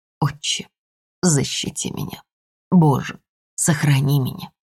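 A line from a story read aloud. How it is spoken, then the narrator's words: Mother whispering. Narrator (Russian): мама прошептала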